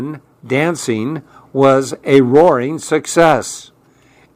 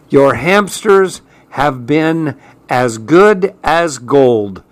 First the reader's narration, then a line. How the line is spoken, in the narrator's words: said Miss Bottomus